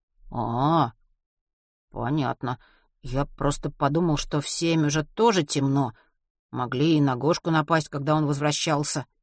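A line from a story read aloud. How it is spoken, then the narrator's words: Muttering. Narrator (Russian): пробормотал Матвей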